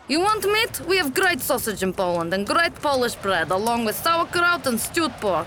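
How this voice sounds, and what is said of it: Accent often mistaken for Russian. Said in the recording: “My accent is often mistaken for Russian”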